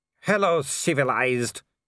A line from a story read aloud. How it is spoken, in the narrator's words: he growled